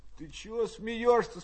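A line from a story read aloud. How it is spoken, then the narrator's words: Sleepy muffled question. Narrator (Russian): спросил его из-за перегородки сонным голосом Пущин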